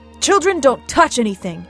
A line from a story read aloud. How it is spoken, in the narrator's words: cried